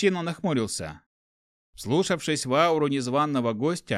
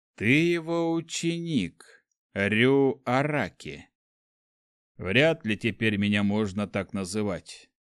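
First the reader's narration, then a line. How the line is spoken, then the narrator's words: Sad wry young man. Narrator (Russian): печально усмехнулся парень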